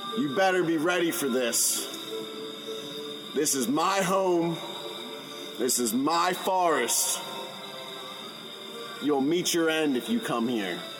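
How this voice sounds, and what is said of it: Raised, loud threatening voice. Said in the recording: “raise my voice”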